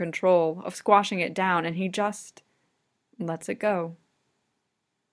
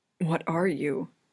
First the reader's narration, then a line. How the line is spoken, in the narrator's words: Cornello whispers